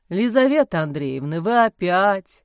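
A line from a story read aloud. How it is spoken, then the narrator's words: Dejected moan from another room. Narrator (Russian): Уныло простонал из гостиной отец Амвросий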